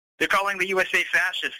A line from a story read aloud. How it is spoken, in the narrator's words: I said to him angrily